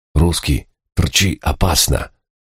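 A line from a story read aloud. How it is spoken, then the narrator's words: Hurried young man's whisper. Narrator (Russian): Успел прошептать молодой серп, прячась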